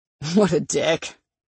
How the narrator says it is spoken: he chuckled

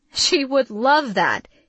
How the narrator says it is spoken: he exclaimed

